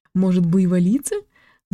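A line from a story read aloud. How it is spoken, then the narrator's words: Laughing. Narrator (Russian): засмеялась Лора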